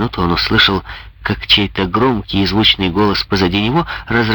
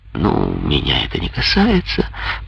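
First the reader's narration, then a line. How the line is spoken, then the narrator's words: Mumble. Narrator (Russian): пробормотал Жан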